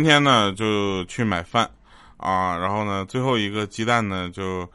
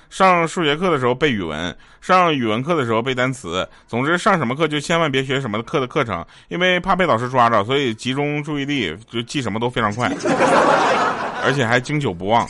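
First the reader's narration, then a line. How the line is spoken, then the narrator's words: Determined. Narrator (Chinese): 我就一咬牙，我就说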